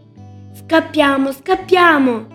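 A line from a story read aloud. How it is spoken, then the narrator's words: Shout. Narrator (Italian): grida Andrea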